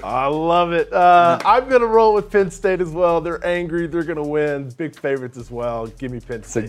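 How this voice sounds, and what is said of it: Impression of Barton. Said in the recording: “good Barton impression”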